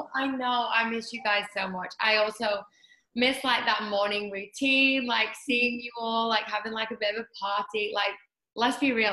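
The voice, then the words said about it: British accent. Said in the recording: “all served with a fabulous accent ... as a Brit in LA”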